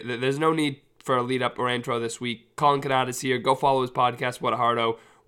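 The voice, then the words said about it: Unwell, odd-sounding voice. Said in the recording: “I'm a little under the weather, so my voice sounds weird”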